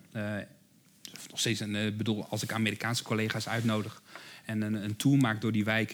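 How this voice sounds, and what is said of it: Dutch Rotterdam accent. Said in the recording (Dutch): “ik hoor het misschien aan mijn accent, ik kom zelf uit Rotterdam”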